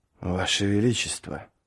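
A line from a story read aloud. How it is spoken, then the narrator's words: Quiet. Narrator (Russian): тихо промолвил Квиберн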